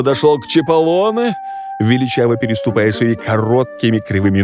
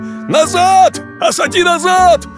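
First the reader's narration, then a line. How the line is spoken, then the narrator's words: Exasperated old man shouting. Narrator (Russian): бедный старик Чиполлоне не выдержал и закричал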